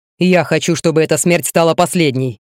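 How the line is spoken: Growl. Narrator (Russian): рыкнул

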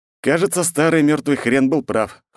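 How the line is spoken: Snorting. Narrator (Russian): хмыкнул я

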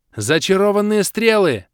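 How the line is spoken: Yelling. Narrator (Russian): завопил я

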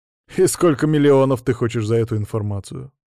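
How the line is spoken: Smirking question. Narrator (Russian): хмыкнув, спросил я

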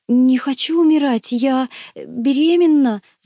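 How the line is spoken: Whimpering. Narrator (Russian): захныкала

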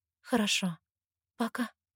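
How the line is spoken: Trembling mutter. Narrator (Russian): бормочу дрожащим голосом

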